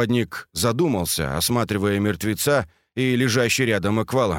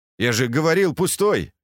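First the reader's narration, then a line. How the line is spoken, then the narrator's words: Snorting. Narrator (Russian): хмыкнул Скат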